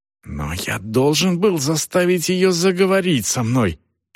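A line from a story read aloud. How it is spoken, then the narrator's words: Hissed half-whisper. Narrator (Russian): прошипел полушепотом Селдон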